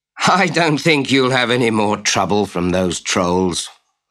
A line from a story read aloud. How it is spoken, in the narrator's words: laughed Otto